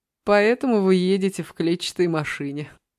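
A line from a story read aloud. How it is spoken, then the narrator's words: Laughing. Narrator (Russian): засмеялся Егор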